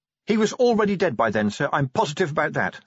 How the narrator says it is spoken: said Angua quickly

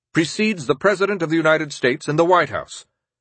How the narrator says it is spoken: he curtly informed the German ambassador

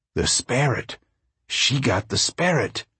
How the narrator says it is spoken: A man said softly

